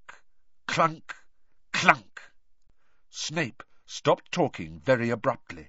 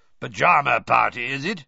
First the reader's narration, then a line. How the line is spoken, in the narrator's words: he growled up the stairs